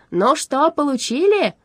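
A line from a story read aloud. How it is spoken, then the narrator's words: Excited shout. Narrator (Russian): возбужденно крикнул Страшила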